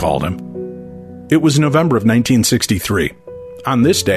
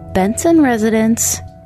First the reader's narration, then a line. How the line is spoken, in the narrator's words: she chirped